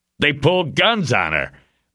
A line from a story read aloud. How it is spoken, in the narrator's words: shouted